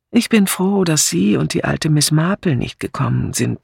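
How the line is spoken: Plain. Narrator (German): sagte Julia

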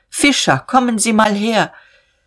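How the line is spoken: Old man calling outside. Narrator (German): der Alte rief hinaus

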